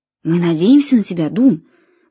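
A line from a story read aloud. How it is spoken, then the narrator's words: Whisper. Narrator (Russian): прошептал я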